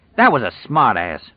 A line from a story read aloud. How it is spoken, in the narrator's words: Hap said fiercely